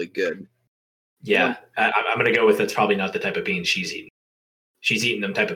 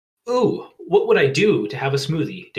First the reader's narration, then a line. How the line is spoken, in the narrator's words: Daisy exclaimed